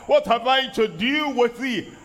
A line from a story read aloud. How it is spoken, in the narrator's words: the evil spirit cried out